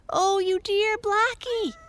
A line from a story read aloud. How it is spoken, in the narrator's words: cried Arthur